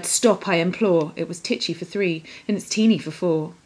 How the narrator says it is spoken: The little old lady cried

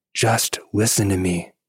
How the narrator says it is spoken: she swore someone was whispering

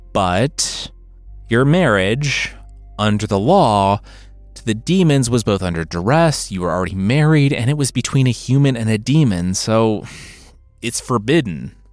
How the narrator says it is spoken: the rabbi sighed

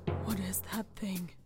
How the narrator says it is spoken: he mumbled outside himself

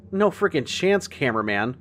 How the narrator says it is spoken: I said

